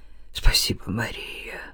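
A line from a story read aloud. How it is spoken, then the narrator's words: Whispered. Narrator (Russian): прошептал Левин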